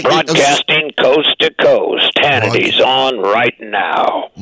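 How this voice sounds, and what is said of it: Booming radio announcer voice. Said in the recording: “That's my radio voice.”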